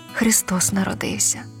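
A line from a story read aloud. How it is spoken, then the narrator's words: Barely audible whisper. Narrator (Ukrainian): ледь чутно прошепотіла вона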